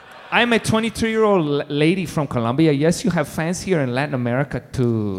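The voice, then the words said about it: Put-on accent for a letter-writer. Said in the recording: “And the accent should be dead on ... And for her accent, let's go dead on.”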